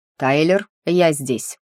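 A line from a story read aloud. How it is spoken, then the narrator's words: Loud announcement. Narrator (Russian): громко сообщил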